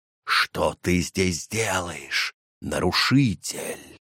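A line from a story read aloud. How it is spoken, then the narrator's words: Hissing cobra. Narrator (Russian): прошипела главная кобра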